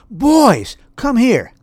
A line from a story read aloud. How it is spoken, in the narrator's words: he waved his arms and yelled